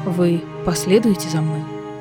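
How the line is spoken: Quiet question. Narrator (Russian): тихо спросила Манона

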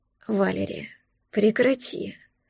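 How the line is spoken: Growl through clenched teeth. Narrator (Russian): Рыкнул он, сцепив зубы

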